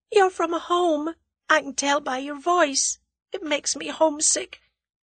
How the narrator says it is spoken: Through her sobs, the girl said indistinctly

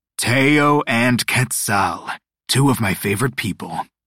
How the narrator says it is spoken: the booming voice of Dios Mala Suerte

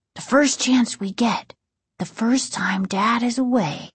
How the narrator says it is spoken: Casey whispered

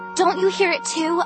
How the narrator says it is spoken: I cried

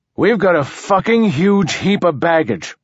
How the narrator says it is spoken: Martin Silenus said loudly

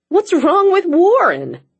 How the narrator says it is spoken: Sean cried

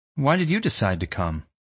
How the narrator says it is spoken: I asked sharply, defending myself

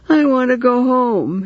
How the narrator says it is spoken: he wailed

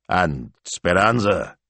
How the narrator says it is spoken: Signor Maestro grunted

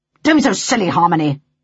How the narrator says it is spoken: he barked

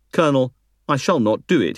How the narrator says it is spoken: he replied

